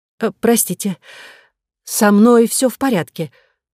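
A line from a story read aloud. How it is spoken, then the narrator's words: Strained, forced smile. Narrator (Russian): натянуто улыбнулась я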